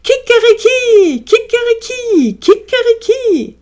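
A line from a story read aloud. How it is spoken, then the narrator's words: Thundering crow. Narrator (German): donnerte es erneut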